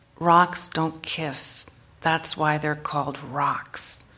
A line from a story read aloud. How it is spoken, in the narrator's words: murmured, as if in self-pity